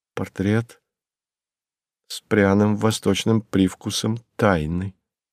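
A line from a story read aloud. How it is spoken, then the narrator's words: Low undertone. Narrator (Russian): сказала вполголоса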